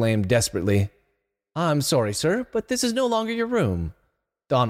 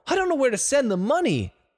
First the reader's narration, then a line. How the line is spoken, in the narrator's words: Donald cried